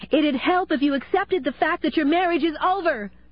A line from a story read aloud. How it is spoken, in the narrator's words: she shouted after him, too angry to censor her words